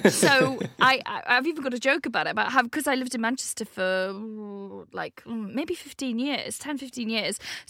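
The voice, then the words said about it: Slight Welsh accent. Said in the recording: “you actually have a bit of a Welsh accent ... one of those accents that it sort of changes wherever I am ... I get like Manx twangs in my voice”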